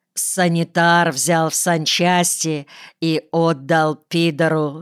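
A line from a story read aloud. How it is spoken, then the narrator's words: Plain. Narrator (Russian): сказал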